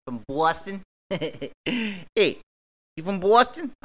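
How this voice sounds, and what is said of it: Poor imitation Boston accent. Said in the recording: “My accent is terrible... I didn't mean to disrespect anybody from Boston”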